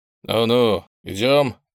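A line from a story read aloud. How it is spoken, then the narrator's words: Grumbled. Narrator (Russian): пробурчал чекист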